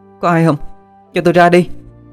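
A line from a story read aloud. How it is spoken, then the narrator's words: Desperate shouting. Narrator (Vietnamese): Đập cửa trầm trầm, cô la lên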